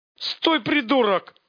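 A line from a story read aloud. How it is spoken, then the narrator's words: Barked. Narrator (Russian): Рявкнул главарь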